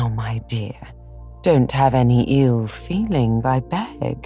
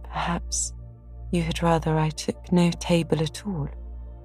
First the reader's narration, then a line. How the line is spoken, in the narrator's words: said quietly, feeling hurt and showing that she did